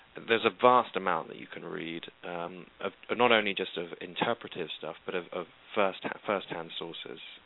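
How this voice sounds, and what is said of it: English accent. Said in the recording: “from your accent, I can tell that, you're from Europe and probably from England.”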